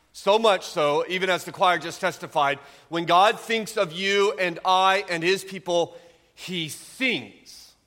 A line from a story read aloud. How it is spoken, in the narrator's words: he shouts, and his heart overflows with joy